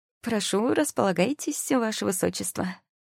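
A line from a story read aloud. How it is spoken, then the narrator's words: Snide greeting. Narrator (Russian): Ехидным тоном поприветствовала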